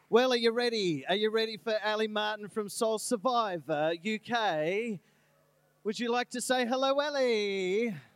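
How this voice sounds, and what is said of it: Poor put-on English accent. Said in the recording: “That is one of the worst English accents I've ever heard.”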